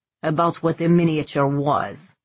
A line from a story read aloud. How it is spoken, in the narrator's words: he growled